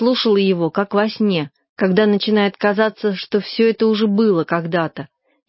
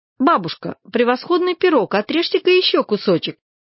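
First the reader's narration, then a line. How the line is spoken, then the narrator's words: Cheerful. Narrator (Russian): сказала я весело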